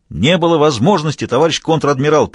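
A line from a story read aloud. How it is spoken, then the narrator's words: Barking. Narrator (Russian): рявкнул Мазур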